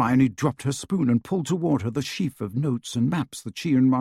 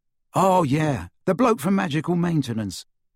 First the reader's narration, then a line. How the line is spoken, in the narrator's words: said Ron